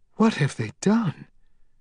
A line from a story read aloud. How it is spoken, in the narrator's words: Amy asked in a horrified whisper